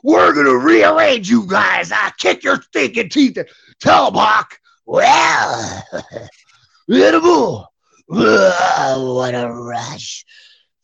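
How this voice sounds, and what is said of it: Animal impression. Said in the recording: “I'd have to think of better lingo for animal there ... Good, damn good impersonation for sure”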